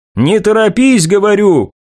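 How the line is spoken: Shouted into ear. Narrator (Russian): крикнул Доминик ей в ухо

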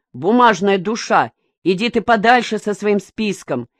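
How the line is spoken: Joking shout. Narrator (Russian): Миша ради смеха выкрикнул

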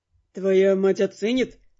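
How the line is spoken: Snorting. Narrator (Russian): хмыкнул Дорс

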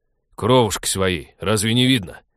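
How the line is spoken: Barking. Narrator (Russian): рявкнул Вадим в противовес ребенку

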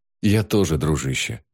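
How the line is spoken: Sighing. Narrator (Russian): Ноэль вздохнул

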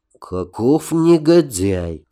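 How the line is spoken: Through gritted teeth. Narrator (Russian): процедил Нарнах

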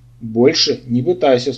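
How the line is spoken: Stern command. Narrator (Russian): строго приказал колдун

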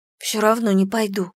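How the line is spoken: Grumbling. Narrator (Russian): проворчала я

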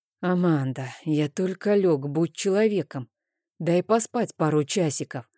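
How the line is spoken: Sleepy voice. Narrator (Russian): сонно произнес Рейн

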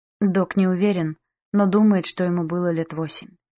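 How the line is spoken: Muffled, dull voice. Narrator (Russian): глухо сказал Барт

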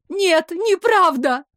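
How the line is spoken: Sobbing. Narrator (Russian): всхлипывала она

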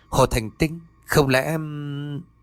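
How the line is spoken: Muttered to himself. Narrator (Vietnamese): cậu lẩm bẩm

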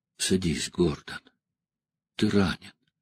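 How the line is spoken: Surprisingly soft. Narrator (Russian): Деннис сказал поразительно мягко

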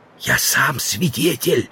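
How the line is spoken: Whisper. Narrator (Russian): сказал Стендаль, тоже переходя на шепот

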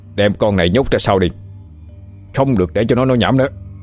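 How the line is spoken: Harsh shout. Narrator (Vietnamese): A Kha Chinh quát lên

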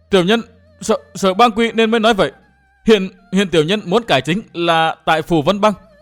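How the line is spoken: Terrified cry, big man. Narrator (Vietnamese): hắc y đại hán hồn phi phách tán, kêu lên thất thanh

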